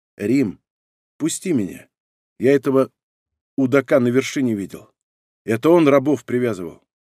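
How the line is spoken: Quiet speech. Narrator (Russian): Кот тихонько сказал

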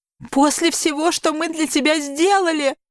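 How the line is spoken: Mother, starting to sob. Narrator (Russian): продолжает мама и начинает всхлипывать

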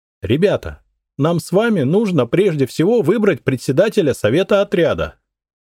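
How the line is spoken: Falsely cheerful voice. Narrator (Russian): фальшиво задорным голосом произнесла она

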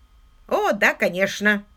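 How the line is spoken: Grumpy grumbling. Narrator (Russian): сварливо пробурчал лорд Уимзи

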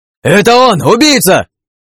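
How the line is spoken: Yell from behind. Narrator (Russian): Заорал кто-то за спиной

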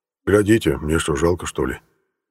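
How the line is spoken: Calm. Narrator (Russian): спокойно говорил Фрол Кузьмич

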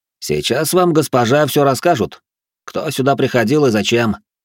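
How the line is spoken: Loud public announcement. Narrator (Russian): Рэй хмыкнул, громко во всеуслышание произнес

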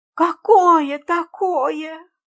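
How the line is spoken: Moaning. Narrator (Russian): простонала мисс Фридлендер

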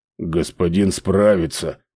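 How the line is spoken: Grumbled. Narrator (Russian): проворчал Ральф

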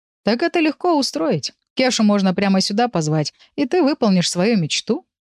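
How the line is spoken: Snorting. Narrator (Russian): хмыкнул Урс

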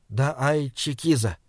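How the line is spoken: Quiet. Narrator (Russian): тихо сказал Саймон

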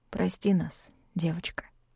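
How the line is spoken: Quiet repetition. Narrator (Russian): повторил тихо

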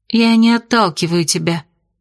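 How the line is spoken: Sighing. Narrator (Russian): вздохнула

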